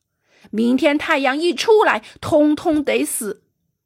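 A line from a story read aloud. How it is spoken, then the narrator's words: Roaring. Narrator (Chinese): 凯考姆吼叫着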